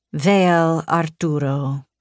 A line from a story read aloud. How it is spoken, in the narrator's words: purred